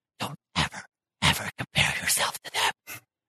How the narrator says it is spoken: I whispered

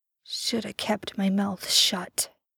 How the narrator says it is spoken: Sam mumbled

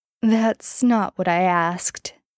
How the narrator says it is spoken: Jensen chuckled

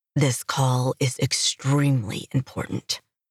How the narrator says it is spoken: he said through a slow, drawn-out growl and clenched teeth

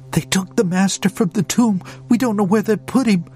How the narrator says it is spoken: breathlessly panting

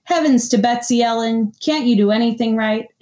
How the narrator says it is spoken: He yells

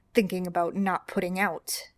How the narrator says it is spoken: Dean growled

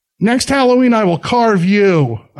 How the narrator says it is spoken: I exclaim against the rain beginning to fall

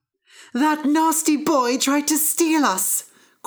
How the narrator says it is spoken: cried the harp

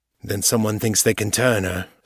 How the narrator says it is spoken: Silas said

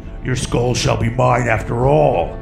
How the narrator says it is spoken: growled Cool

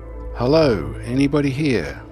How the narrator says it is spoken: Torgon's voice boomed out in the silence

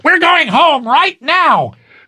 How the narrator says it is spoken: jumped up on the table and yelled

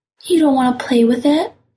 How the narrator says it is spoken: asked, whimpering

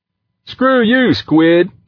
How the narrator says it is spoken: shouted

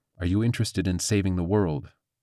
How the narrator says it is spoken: he asked me

